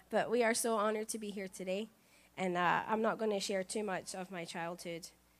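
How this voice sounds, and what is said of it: Rough, sore-throated voice. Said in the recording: “excuse my voice, ... I do have a sore throat.”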